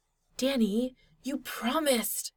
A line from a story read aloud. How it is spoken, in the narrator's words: Styles hissed